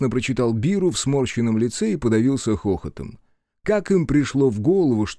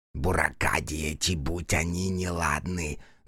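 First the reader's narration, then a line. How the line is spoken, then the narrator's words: Distant mumbling. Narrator (Russian): донеслось бормотание Ямаубы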